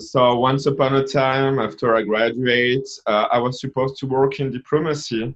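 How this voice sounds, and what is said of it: French accent. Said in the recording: “I'm from France because of my accent.”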